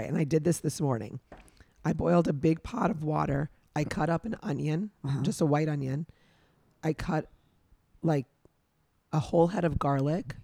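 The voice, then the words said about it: Rough, strained voice. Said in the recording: “my voice sounds like trash ... made my voice come back a little bit better, even though it doesn't sound that way”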